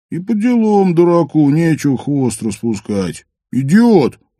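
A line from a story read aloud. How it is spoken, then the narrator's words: Loud groan. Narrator (Russian): громко простонал Каска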